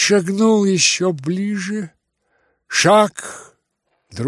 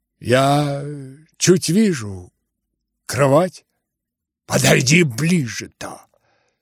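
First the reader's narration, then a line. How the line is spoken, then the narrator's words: Quiet. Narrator (Russian): тихо предложил Рогожин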